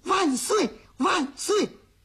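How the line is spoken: Shouting. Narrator (Chinese): 小虎子 喊

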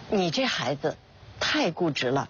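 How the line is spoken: Helpless sigh. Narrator (Chinese): 王建国无奈地叹了口气说道

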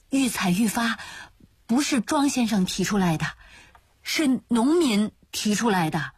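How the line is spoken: Stammering. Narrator (Chinese): 她继续结结巴巴地说

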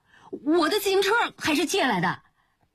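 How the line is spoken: Shout. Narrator (Chinese): 吴坤又叫

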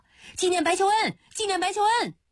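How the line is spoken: Calling out. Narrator (Chinese): 还有人叫

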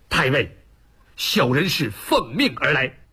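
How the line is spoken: Hurried, defensive. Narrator (Chinese): 林冲急于想为自己辩解，赶忙抢先

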